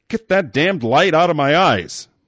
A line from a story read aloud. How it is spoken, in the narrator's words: Mullen shouted